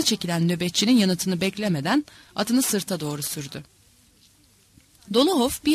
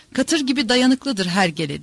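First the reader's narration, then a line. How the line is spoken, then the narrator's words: Laughing. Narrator (Turkish): diye gülerek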